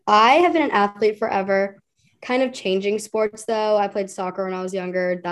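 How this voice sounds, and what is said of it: Voice affected by illness. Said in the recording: “Excuse my voice. I'm like a little bit sicker now”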